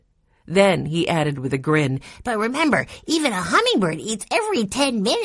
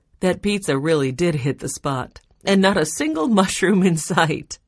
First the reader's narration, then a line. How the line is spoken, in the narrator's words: she said with a laugh